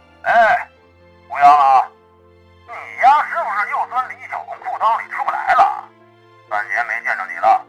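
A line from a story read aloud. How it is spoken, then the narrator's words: Blurted out. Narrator (Chinese): 对方张嘴就说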